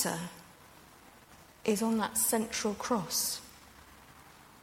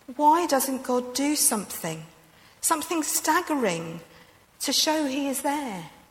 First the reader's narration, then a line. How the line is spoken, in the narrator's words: in the face of some calamity in our world, we have cried out